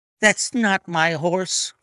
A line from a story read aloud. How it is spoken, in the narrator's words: cried the owner